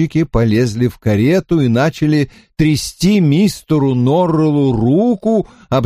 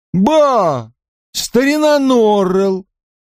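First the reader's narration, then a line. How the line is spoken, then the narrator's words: Exclaiming, fat coachman. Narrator (Russian): толстый возчик воскликнул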